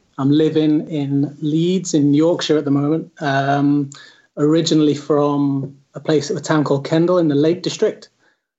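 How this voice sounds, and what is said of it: British (Northern English) accent. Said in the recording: “maybe you can tell by my accent, I'm from the UK”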